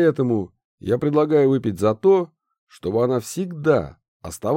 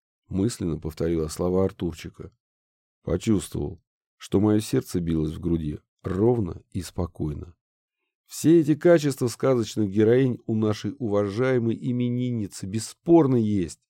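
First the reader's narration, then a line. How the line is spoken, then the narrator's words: Plain. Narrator (Russian): сказал Прохоров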